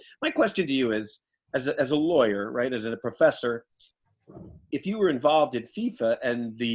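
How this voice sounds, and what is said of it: Usual voice. Nothing is said of it.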